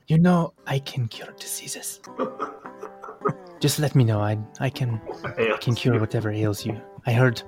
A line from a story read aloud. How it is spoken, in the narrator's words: in between gulps of ale, she's going to whisper to Rudder